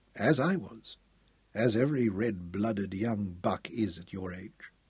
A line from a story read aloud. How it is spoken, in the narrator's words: he said gravely